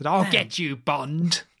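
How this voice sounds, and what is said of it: Impression of Blofeld. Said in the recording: “that's a great impression”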